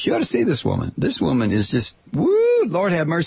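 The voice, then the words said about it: Phony exaggerated Texas accent. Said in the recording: “this stupid-ass, phony Texas accent that I'm talking in”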